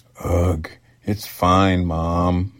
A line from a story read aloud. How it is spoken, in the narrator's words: Matt groaned